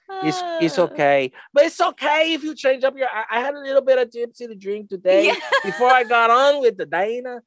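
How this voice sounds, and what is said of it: Unidentified put-on accent, not very good. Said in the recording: “in an accent ... it's not very good ... I don't even know what voice I'm doing, but I'm doing something ... The accent, I mean, not a language, an accent ... it's impressive”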